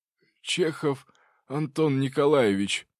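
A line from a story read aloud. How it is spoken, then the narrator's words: Hoarse voice. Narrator (Russian): хриплым голосом представился он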